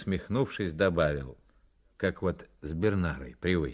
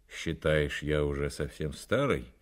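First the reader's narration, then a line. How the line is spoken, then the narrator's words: Gloomy question. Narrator (Russian): уныло спросил Фонарев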